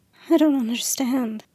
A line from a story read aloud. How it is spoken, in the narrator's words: she whispered